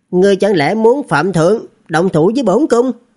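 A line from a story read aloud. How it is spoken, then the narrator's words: Cold. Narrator (Vietnamese): lạnh lùng nói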